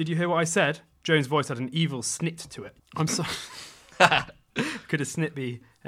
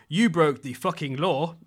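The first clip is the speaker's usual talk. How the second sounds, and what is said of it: Put-on unidentified accent. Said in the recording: “in whatever accent that would be”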